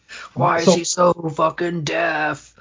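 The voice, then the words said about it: Imitates another person's voice. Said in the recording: “I'm just doing your impression, man.”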